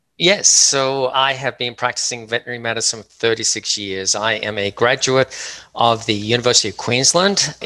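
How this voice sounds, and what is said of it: Australian accent. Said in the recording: “I can tell from your accent that you're probably from Australia”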